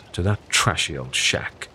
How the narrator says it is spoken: scoffs

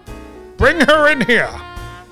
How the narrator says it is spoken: Brundle shouted

